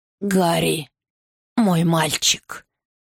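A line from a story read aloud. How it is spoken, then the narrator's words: Hoarse rasp. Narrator (Russian): прохрипел король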